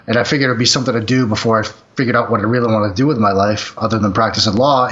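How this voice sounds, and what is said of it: Boston accent. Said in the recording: “I can tell you got some of that Boston accent. ... Oh, yes, I do.”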